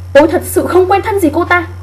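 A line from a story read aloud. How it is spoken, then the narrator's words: Loud, indignant woman. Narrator (Vietnamese): Cô nói lớn tiếng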